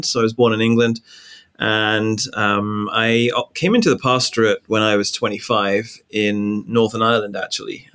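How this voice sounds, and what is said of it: English accent. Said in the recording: “my accent gives me away, right? I'm not originally from the US. I'm from England.”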